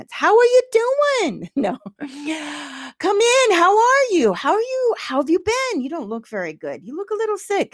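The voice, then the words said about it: Put-on Jewish New York grandmother accent. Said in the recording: “she had the best Jewish accent ... she didn't talk like that, but it's better with the accents”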